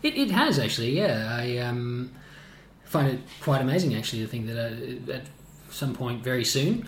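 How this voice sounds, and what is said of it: Australian accent. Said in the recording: “you kept your accent though. ... a fellow Aussie, and it uh, definitely comes out more then.”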